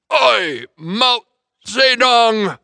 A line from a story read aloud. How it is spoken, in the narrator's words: boomed Carrie